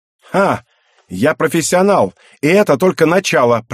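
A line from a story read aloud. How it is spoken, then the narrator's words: Excited girl shouting. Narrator (Russian): прокричала возбужденная девушка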